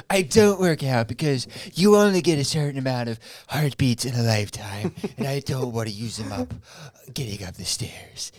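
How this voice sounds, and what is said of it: Imitates another person's voice. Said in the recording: “How was that Trump impression? Was that decent? ... Dude, that was beautiful. ... That was good, dude. ... Like, I thought I was listening to Donald Trump”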